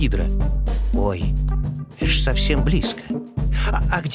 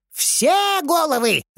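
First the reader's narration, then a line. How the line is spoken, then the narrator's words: Shouting after someone. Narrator (Russian): закричал вслед Эврисфей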